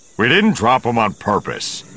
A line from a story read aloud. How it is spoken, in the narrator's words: Han growled